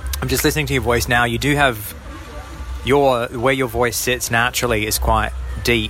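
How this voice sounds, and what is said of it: Australian accent. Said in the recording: “Australian accent”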